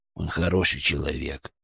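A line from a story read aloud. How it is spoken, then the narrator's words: Quiet, almost guilty. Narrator (Russian): наконец тихо, почти виновато сказал Бурундук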